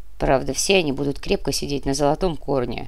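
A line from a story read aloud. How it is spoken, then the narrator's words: Mumbling. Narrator (Russian): снова промямлил барон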